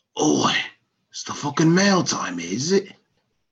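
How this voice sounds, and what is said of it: Put-on Cockney accent. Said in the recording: “Just do your best Cockney accent. ... I loved your Cockney. It was great.”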